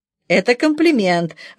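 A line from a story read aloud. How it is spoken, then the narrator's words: Laughing. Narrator (Russian): рассмеялся Богданов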